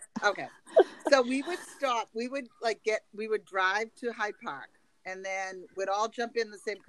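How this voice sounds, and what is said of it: Boston accent. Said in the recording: “my Boston accent? I try not to like put it on.”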